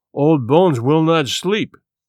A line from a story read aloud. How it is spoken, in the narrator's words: he said solemnly